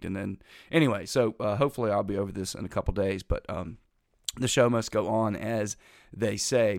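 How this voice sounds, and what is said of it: Slightly congested voice from a cold. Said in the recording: “I still have this daggum cold. I'm a lot better, as you can hear. ... better. Still a little bit off. I still have a little bit of congestion.”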